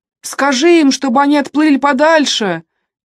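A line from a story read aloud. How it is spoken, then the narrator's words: Shouted. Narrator (Russian): крикнул Сент-Джеймс, когда парни в шестой раз вернулись ни с чем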